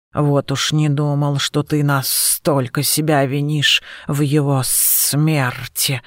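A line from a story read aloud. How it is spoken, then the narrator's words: Shocked muttering. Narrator (Russian): потрясенно пробормотал Серпопарт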